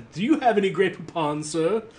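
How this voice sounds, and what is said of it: Very posh put-on accent. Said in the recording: “he asks in a very posh accent”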